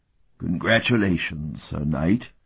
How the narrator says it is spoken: Otha rumbled ironically

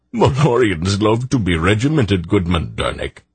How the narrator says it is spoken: Brador laughed

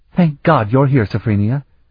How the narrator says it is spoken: Elana exclaimed

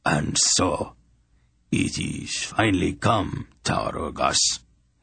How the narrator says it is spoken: he said coldly

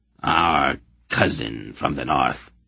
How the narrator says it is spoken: Chaurugas greeted him coldly

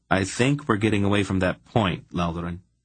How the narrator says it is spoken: Geryon said firmly

